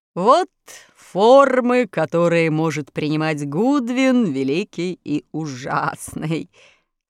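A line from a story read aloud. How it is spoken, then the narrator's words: Laughing wizard. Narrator (Russian): смеясь сказал разоблаченный волшебник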